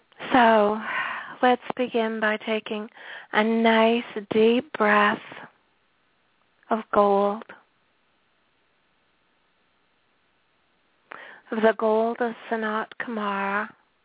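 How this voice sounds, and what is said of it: Hoarse voice. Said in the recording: “hoarseness”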